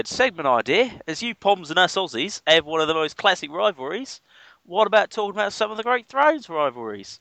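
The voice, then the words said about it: Poor imitation Australian accent. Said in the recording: “That was a really bad Australian accent ... that impression”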